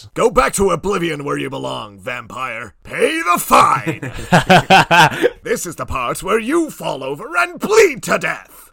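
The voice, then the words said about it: Impression of Oblivion game guards. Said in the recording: “Can you do an impression of the guards?”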